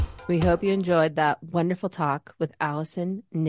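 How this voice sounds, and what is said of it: Usual voice. Nothing is said of it.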